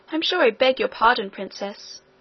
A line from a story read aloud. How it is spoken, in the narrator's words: she said, though still in an offended tone